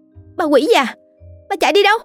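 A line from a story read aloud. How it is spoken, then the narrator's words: Woman shouting. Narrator (Vietnamese): Cô hét lên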